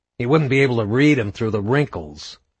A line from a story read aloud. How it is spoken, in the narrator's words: Baird sneered